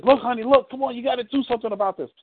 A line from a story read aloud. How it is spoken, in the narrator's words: she screams and says